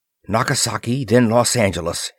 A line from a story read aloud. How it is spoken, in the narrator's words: he muttered